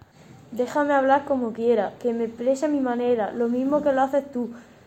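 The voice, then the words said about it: Andalusian Spanish accent. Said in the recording (Spanish): “nuestro acento, el andaluz ... hablo y pienso en andaluz ... Mi acento es de Andalucía”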